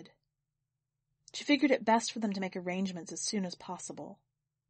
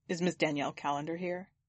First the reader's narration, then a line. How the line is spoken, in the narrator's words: Akeem answered